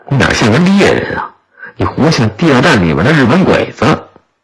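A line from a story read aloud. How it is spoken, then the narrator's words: Laughing. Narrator (Chinese): 陈震笑着说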